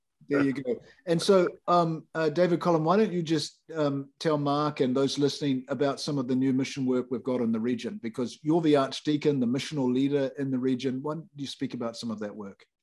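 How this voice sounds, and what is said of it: Noticeable accent. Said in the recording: “you've got that accent, which I'm still trying to figure out.”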